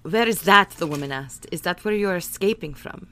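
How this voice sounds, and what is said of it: Put-on accent for a character. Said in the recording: “how did my accent work? It's so terrible.”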